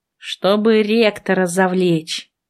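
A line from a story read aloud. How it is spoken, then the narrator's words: Gloomy. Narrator (Russian): мрачно сказала я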